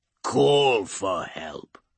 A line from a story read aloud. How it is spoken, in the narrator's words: he growls